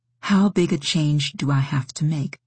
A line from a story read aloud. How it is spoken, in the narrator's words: she asked